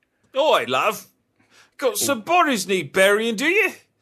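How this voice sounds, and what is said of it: Put-on Cockney accent. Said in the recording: “Cockney accent.”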